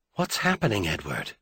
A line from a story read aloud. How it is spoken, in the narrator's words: she asked softly